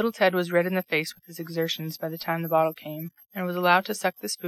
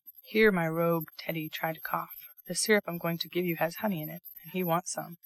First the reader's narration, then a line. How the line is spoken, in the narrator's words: Bear whispered to him, with a droll look